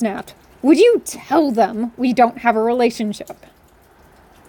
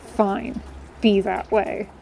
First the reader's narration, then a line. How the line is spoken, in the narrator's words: I mumbled bitterly